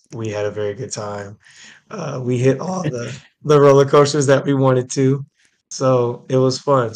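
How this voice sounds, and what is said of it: Strained, worn-out voice. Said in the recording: “as you can tell by my voice ... you'll have to bear with me a little bit today as far as my voice ... You spent the weekend like high-pitched screaming just over and over again.”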